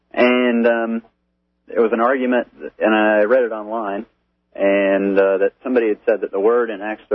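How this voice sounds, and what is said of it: Slight Texas accent. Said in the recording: “a little bit of a Texas accent ... I can hear it. It's, yeah. you're sort of you know, getting those words down a little bit quicker than you should.”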